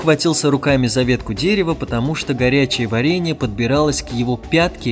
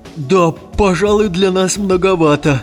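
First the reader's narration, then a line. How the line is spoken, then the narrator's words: Shout. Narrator (Russian): закричал Вахмурка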